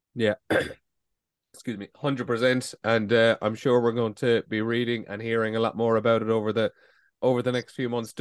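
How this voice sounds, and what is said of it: Hoarse, failing voice. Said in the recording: “my voice is about to go”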